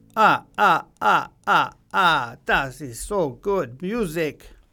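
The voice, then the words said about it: Put-on Sicilian vampire accent. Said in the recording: “I'm trying to do a vampire accent, but it's not coming out very well ... sounds uh, very much like a vampire from Sicily”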